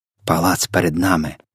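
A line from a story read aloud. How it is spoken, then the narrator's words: Whispered reply. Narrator (Ukrainian): прошепотіла у відповідь Софія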